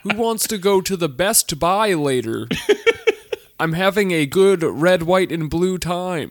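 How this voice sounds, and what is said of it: Put-on, uncanny American accent. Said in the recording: “He did his American voice pretty good ... uncanny valley American accent.”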